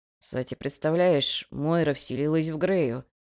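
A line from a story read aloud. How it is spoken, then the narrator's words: Groaning mumble. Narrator (Russian): пробормотал он, охая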